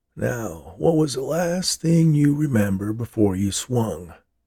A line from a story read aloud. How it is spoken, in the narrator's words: asked the man